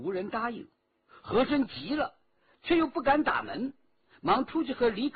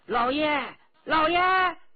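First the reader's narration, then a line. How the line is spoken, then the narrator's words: Raised voice, calling. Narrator (Chinese): 他提高声音连叫两声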